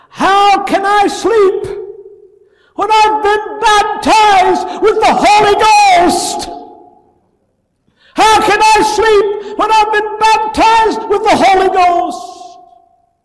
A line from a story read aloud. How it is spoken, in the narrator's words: Stanley Jones tells how he hollered up the stairs and said